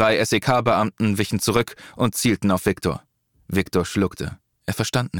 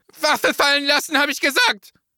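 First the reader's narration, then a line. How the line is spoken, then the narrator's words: Hysterical shout. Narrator (German): schrie hysterisch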